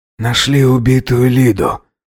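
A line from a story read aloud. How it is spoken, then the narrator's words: Breathless exhale. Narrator (Russian): выдохнул Алхасов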